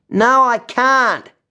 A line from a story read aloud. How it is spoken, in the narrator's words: yells Mitch